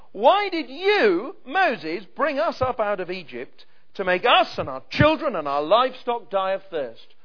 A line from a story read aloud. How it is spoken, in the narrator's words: they grumbled against Moses, and they said